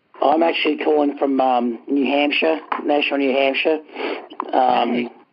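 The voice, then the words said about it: Australian accent. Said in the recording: “the accent doesn't match, I know ... I'm originally from Australia”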